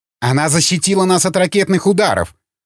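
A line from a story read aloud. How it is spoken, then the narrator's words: Sharp rebuke. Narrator (Russian): прикрикнул на него Линч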